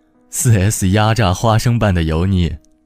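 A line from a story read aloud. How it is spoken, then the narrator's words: Laughing. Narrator (Chinese): 老胡笑着说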